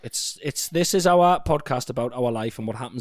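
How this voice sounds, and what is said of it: Usual voice. Nothing is said of it.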